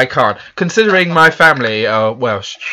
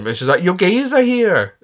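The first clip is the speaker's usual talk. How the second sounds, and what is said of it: Poor attempt at Welsh accent. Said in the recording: “I can't do a Welsh accent. ... You can't do it.”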